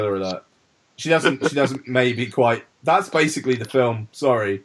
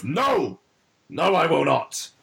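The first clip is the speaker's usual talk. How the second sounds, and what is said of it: Imitates another person's voice. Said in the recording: “That's my impression of Meryl Streep.”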